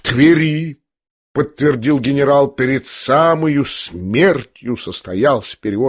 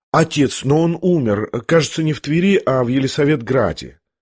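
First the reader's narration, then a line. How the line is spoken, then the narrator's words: Timid remark. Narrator (Russian): робко заметил князь генералу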